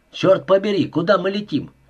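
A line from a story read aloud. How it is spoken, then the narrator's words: Shout. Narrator (Russian): крикнул Уэбстер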